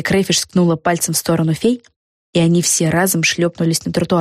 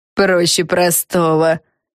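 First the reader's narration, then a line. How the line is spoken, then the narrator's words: Old woman's snort. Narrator (Russian): фыркнула старуха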